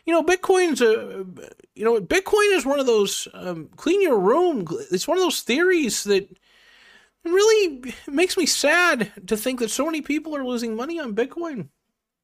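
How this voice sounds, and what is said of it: Jordan Peterson impression. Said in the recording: “do a Jordan Peterson impression,”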